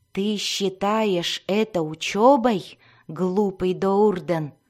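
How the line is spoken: Growling. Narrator (Russian): зарычал Альтан

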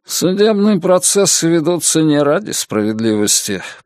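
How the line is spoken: Grumbling. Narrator (Russian): проворчал мистер Салливан

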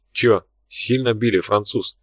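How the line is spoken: Quiet question. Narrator (Russian): тихо поинтересовался Тхар

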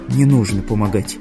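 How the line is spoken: Quiet. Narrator (Russian): тихо сказала Тамара

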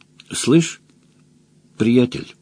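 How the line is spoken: Gentle. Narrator (Russian): мягко обратился Выдр

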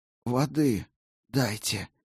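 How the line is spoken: Hoarse croak. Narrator (Russian): прохрипела Клара

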